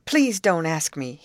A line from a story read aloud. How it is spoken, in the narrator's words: he exclaimed